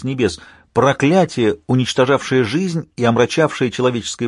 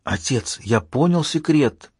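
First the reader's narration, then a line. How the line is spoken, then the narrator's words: Whispered reply. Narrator (Russian): ответил шепотом МакГи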